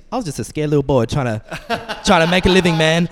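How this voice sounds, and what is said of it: Mike Tyson impression. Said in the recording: “That's not a bad impression, man.”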